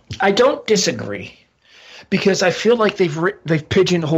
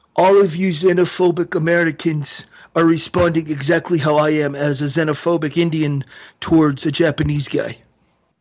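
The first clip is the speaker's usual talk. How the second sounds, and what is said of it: Imitates another person's voice. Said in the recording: “That was my best Jinder impersonation.”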